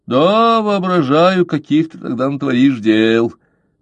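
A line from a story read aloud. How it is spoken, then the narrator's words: Mocking. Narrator (Russian): насмешливо произнес капитан Блад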